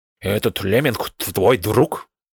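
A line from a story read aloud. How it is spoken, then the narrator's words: Snorting. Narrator (Russian): фыркнул беличий бог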